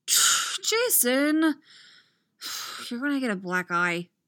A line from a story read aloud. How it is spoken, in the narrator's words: Tim sighs